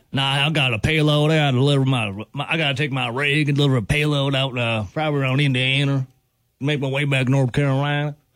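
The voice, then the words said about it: Put-on Southern US accent. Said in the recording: “I don't like that accent at all. ... You don't like the Southern? ... I just don't like your take on the accent there.”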